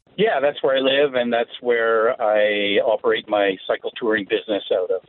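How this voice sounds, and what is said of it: Canadian accent. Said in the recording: “you sound very Canadian, eh? ... he talks just like you ... It's very authentic.”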